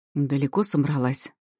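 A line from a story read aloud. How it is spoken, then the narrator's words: Voice from behind. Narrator (Russian): Раздалось за спиной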